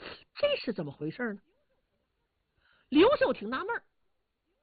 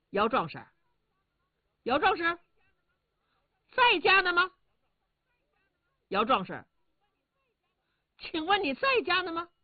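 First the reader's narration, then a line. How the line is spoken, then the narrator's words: Calling repeatedly. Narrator (Chinese): 刘秀叫了两三声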